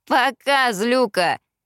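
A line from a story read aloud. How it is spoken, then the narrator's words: Loud reply. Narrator (Russian): громко ответил ей Эштон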